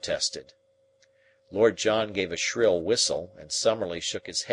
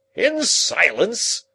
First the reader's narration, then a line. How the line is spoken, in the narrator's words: cried Lord John